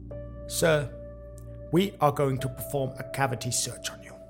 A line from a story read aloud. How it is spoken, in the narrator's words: a young, fresh-faced agent stated in a firm but emotionless voice